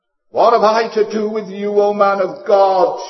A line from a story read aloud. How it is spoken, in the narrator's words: she cried out